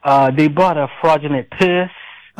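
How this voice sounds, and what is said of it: Imitates a movie character's voice. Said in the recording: “my imitation of Chow from The Hangover”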